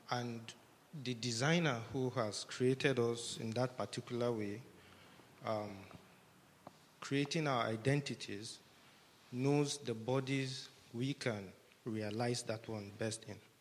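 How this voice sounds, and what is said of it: Breathless voice with a cold. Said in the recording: “I'm running out of breath. My voice is kind of having a cold.”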